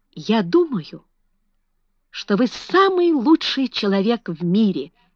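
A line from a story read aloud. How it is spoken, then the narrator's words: Exclaimed. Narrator (Russian): воскликнул он наконец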